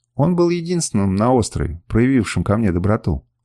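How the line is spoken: Plain. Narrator (Russian): ответил я

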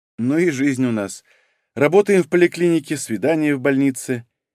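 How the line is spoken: Forced laugh. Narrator (Russian): неестественно хохотнула Варя

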